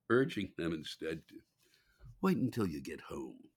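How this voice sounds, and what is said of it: Badly done British accent. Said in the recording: “my badly done British accent”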